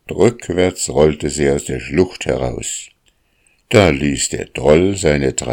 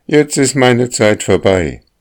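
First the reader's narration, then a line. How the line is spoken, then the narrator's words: Calling out. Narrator (German): Plötzlich aber rief die Sonne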